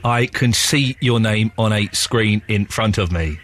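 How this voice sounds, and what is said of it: Robot voice. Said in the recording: “That's my robot voice.”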